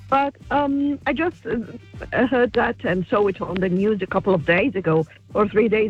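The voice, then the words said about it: Foreign accent. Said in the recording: “I love your accent. Where are you from originally? ... I would say Russia. ... Okay, I'm Northern African. ... Egypt.”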